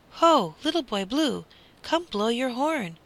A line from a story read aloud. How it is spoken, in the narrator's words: he cried